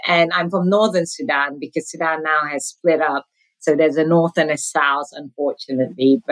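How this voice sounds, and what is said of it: Non-American, British-influenced accent. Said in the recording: “Definitely from your accent, I can tell that you did not grow up here in the United States ... My accent is not from the U.S. I grew up in the U.K., but I'm originally from Sudan.”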